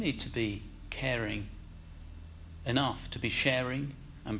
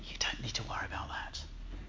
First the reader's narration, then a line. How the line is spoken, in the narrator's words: the devil so subtly whispers